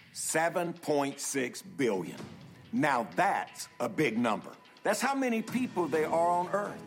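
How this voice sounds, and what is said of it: Georgia accent. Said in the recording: “He's got a great Georgia accent”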